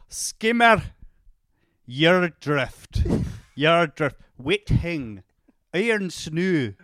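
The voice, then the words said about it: Scottish accent. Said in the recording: “you have to do it in your Scottish accent.”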